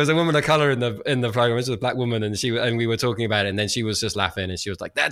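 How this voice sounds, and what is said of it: Usual voice. Nothing is said of it.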